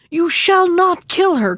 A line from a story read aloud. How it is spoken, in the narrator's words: cried her little daughter